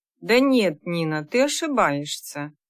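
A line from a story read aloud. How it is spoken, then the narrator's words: Soft, gentle. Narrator (Russian): мягко сказала она подруге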